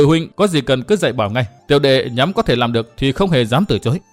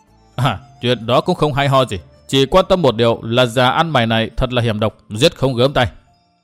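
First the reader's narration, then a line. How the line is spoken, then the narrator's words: Cold scornful laugh. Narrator (Vietnamese): Vốn đã không ưa người ở Nhị Cốc Tam Bảo nên nghe Trang Ngọc nói úp mở, thân cái tông đào cười nhạt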